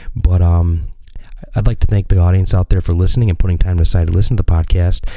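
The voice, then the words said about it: Whispering. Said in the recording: “Sorry I'm whispering. ... kind of like a creepy ASMR”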